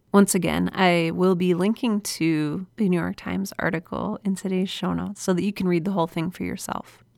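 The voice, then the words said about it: Slightly off, cold-affected voice. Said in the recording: “I've been fighting a cold recently, so I'm sorry if my voice is a little off.”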